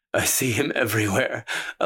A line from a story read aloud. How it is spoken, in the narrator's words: Elias sobbed into her hair, his breath warm on the hollow of her throat